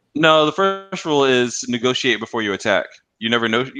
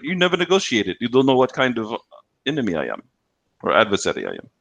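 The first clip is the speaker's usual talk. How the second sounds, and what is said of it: Put-on Russian accent. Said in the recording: “That's more of a Russian accent.”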